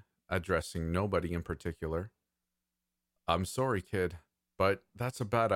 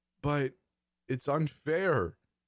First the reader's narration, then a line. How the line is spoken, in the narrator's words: the kid whimpered